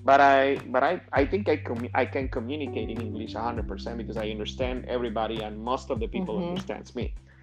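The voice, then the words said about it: Non-native English accent. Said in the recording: “I know I have an accent, and right. I will always have an accent.”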